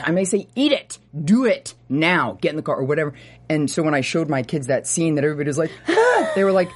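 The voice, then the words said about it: Stern mom voice. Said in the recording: “mom voice, yes. Actual mom voice.”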